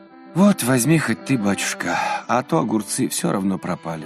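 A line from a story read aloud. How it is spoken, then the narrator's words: Sighing. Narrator (Russian): вздохнула она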